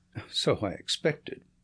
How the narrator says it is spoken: said Holmes, chuckling

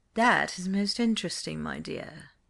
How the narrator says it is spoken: purred his Grace

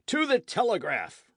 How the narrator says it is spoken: roared the crowd

